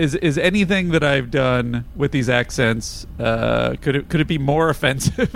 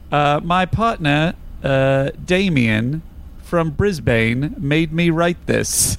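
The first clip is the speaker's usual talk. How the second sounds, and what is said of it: Put-on Australian accent. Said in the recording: “if you're going to do the Australian accent, it's Brisbane.”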